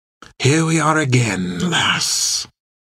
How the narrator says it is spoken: said, almost a whisper

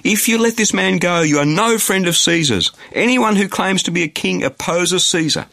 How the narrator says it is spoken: the Jews kept shouting

